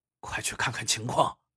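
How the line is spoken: Quiet command. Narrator (Chinese): 健太郎小声命令

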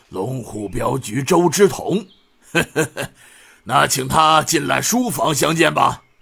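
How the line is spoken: Hearty laughter. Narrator (Chinese): 刘庄主 哈哈笑道

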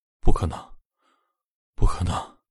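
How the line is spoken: Weak mumbling. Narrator (Chinese): 苏鹏很虚弱的在车内嘟囔着

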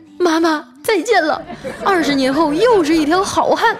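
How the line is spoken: Yelled. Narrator (Chinese): 冲他大叫

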